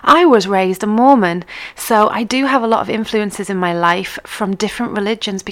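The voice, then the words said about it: Mixed English accent with quirks. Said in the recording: “My accent is a little bit mixed ... I don't necessarily speak like someone from the northeast of England. I have this little quirk in my accent ... from living over in Canada and living in Yorkshire too ... a medley”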